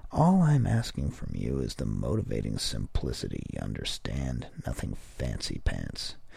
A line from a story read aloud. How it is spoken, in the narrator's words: he'd add in his dreadful monotone